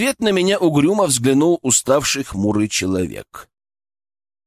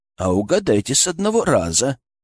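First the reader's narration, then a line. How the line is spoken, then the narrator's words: Snorted. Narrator (Russian): хмыкнул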